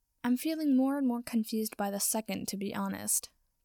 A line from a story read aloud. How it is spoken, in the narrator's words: Potter said dryly